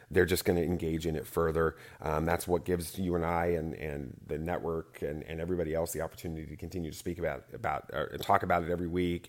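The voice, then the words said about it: Smooth radio-style voice. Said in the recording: “made-for-radio voice? So smooth. ... Great radio voice.”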